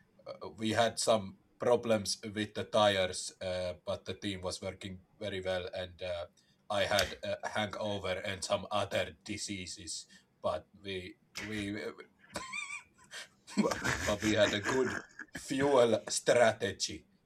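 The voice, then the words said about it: Put-on Finnish-Hungarian-sounding accent. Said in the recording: “You sound like my late Hungarian grandfather. ... Very close to a Hungarian accent”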